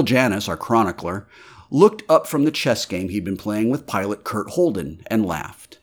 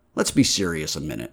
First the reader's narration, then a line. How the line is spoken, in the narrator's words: Framer said